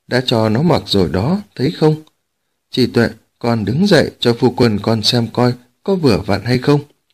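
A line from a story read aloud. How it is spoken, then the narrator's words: Smiling. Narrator (Vietnamese): Dương Mẫu mỉm cười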